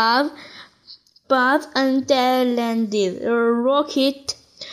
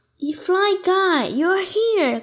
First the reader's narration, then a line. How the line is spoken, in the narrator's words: cried Buzz